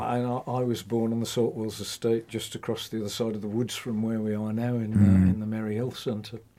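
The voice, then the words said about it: Black Country accent. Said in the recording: “my accent, although it's still there, I think anybody'd know I'm from the Black Country, has modified over the years.”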